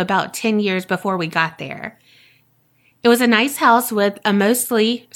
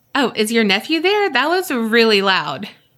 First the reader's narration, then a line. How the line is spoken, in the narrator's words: started laughing and asked